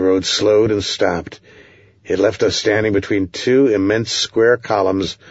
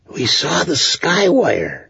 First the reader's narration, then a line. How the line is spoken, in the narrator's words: he whispered